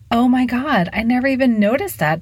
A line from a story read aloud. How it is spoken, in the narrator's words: Delia exclaimed